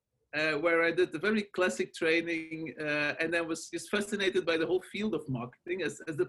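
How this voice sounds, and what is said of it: Belgian accent in English. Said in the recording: “As you can hear from my accent and my name, I'm not originally from the States. I'm from Belgium”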